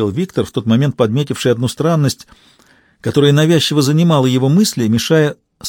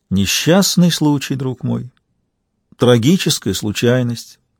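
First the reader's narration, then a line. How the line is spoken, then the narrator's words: Heartfelt, sorrowful. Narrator (Russian): проникновенным голосом, исполненным печали, промолвил Каин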